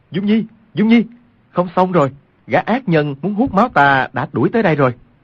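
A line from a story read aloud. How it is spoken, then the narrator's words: Loud, urgent call. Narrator (Vietnamese): Quách Tĩnh cao giọng kêu lên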